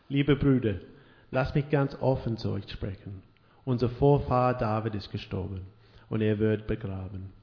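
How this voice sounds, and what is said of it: German read with Australian accent. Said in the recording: “in German with a Aussie accent”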